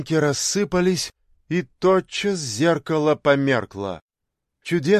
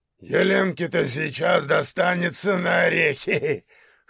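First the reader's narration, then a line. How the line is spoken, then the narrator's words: Chuckling laugh. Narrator (Russian): хохотнул Тифон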